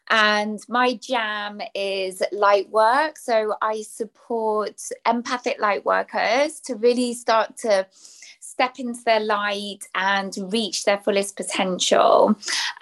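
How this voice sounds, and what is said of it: British English accent. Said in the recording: “I'm British, English, as you can tell by the accent”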